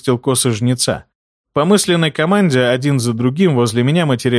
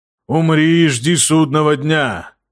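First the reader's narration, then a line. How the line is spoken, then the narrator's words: Booming drone from left. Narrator (Russian): прогудел слева Арсабалу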